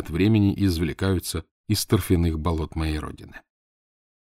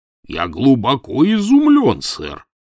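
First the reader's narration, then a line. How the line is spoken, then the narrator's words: Deep bass voice. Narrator (Russian): пробасил Челленджер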